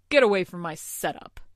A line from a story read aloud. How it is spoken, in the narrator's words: he snarled